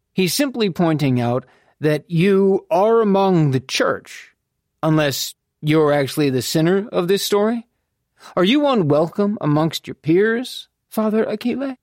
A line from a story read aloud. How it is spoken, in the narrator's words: Beau drawled from the doorway